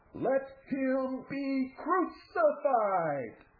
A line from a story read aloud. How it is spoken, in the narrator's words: with the proper coaching, the crowd shouted